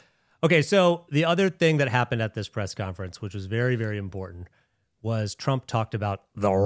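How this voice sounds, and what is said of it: Usual voice. Nothing is said of it.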